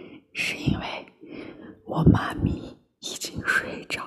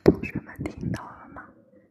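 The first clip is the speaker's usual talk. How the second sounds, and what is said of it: Very quiet, hushed speech. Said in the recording (Chinese): “我得特别小声。”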